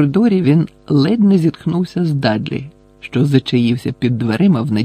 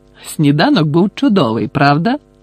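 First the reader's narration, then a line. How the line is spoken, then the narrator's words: Exclaimed. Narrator (Ukrainian): вигукнув Гаррі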